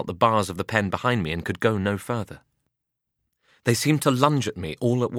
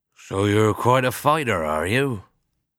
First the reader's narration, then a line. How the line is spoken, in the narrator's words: said my owner smiling through gritted teeth